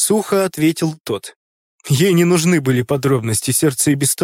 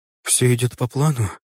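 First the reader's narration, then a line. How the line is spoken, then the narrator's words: Brief question. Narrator (Russian): Женщина коротко спросила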